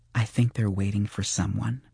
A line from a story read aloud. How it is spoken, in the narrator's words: she said quietly